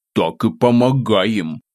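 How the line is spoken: Grumbling under breath. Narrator (Russian): ворчал себе под нос

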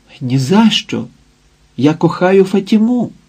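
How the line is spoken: Exclaiming. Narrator (Ukrainian): вигукнув Сантьяго

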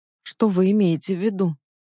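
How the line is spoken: Trembling voice. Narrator (Russian): спросила дрожащим голосом

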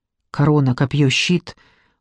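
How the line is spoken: Muttering under breath. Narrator (Russian): бормотал себе под нос Джекоби

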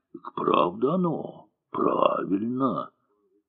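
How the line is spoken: Contented sighs, whispering crowd. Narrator (Russian): Толпа довольно вздыхала, солдаты шептали

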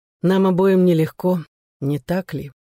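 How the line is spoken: Sad. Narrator (Russian): грустно сказал Пол

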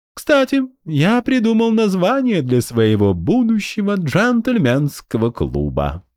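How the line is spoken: Purring. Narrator (Russian): промурлыкал Эстир

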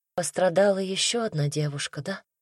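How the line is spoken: Small quiet voice. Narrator (Russian): спросила тихим голоском

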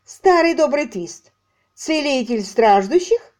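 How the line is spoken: Lively giggle. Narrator (Russian): Он резво хихикнул

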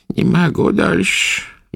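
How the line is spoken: Old woman's sad complaint. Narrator (Russian): грустно жаловалась старуха

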